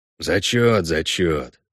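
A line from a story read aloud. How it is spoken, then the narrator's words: Grumbled. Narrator (Russian): проворчал Весемир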